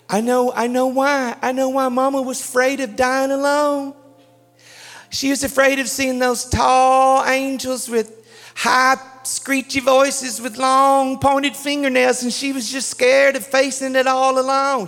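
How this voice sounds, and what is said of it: Put-on Southern accent. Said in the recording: “Did I do good with a Southern accent?”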